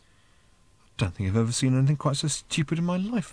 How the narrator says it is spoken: muttered Ford to himself

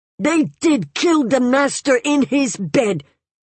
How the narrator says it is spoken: the old man shouted out at the top of his voice, shrill, piercing

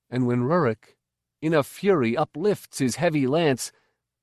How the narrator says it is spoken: Bacchoc cried out

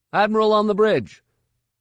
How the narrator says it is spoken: One of them called out

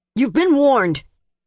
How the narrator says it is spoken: shouted, and his voice was both vindictive and embarrassed

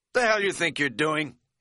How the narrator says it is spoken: he barked

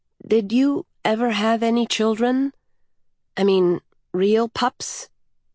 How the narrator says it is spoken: the child said timidly

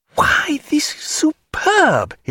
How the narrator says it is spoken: he cried, convulsively hugging the mast

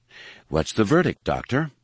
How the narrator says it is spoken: the quaver in her voice

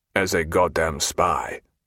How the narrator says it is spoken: muttered the colonel

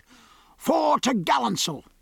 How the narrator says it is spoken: he cried

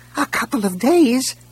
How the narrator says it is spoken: a voice squeaked

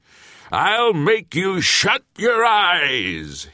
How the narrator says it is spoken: he screamed

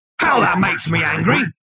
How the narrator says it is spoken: bellowed the machine

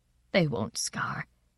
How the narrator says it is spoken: said tearfully

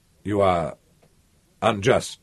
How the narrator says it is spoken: he said

